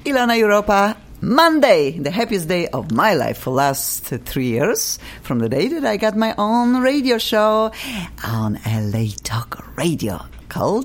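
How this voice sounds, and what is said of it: Polish-American accent. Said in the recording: “my accent is funny ... Polish, American, I don't know what accent I have. Some people say, are you French? Are you Russian? Are you Polish?”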